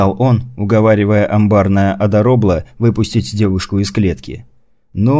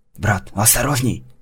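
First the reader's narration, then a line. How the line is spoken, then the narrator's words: Hissed into ear. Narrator (Russian): зашипел ему на ухо Ашот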